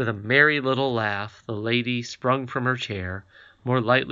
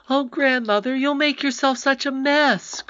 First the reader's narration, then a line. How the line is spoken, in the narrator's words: cried Irene